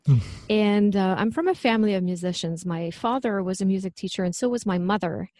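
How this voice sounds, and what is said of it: French Quebecois accent. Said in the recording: “I'm originally from Quebec, so that's where the French accent comes from.”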